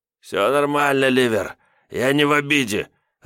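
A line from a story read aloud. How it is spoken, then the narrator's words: Happy mumble. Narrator (Russian): радостно пробормотал Лиходей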